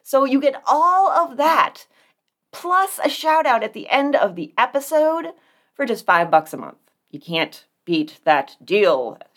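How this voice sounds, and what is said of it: Infomercial announcer voice. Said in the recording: “in her best infomercial man voice.”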